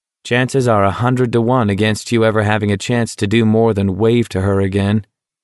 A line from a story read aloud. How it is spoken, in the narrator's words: McVree said flatly